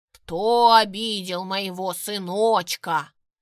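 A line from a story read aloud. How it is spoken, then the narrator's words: Thunderous menacing bass. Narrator (Russian): Пробасила она так грозно, что с потолка пещеры снова посыпалась каменная крошка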